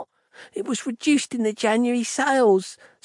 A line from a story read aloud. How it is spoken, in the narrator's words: stammered the kid